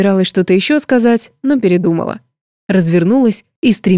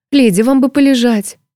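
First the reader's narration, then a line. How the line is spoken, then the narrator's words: Timid babbling. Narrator (Russian): пролепетала женщина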